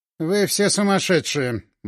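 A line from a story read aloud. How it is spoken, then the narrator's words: Gloomy. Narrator (Russian): мрачно сказал босс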